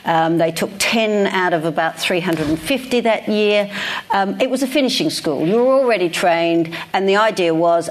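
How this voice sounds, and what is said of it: Australian accent. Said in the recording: “I still have my Australian accent after all these years”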